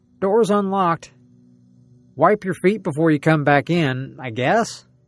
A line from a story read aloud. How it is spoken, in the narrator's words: I called out